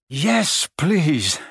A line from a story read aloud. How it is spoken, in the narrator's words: Harry panted